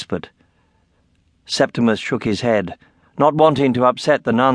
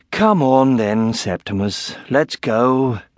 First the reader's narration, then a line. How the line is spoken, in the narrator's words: sighed